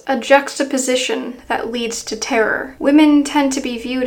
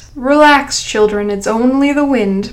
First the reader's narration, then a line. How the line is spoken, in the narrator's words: chuckled Professor White